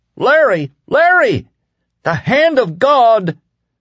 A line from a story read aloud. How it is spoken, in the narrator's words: Ralph shrieked